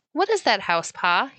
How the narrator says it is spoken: he asked

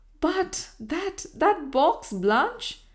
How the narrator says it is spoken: exclaimed Herbert Lawrence

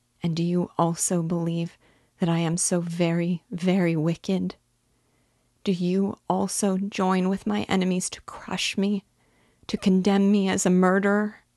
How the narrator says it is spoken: Her voice was suffocated with sobs

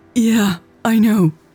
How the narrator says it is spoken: she said in between gasps for air

